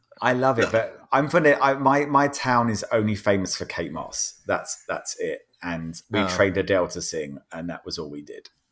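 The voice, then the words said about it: Strong English regional accent. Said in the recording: “My accent's appalling. My accent's really bad. It's Adele's accent that went wild without the singing quality.”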